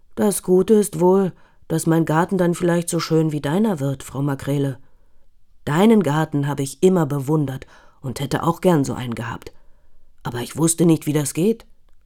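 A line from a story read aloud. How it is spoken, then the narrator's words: Sighing. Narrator (German): seufzt Herr Frese und sagt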